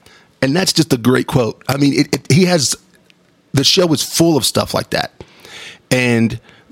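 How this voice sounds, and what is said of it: Usual voice. Nothing is said of it.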